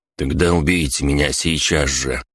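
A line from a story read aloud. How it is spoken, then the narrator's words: Grumbling mutter. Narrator (Russian): пробурчал Дзен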